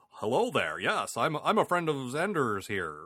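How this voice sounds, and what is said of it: Exaggerated American voice imitation. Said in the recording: “I can't think of anyone who sounds more American. You're like,”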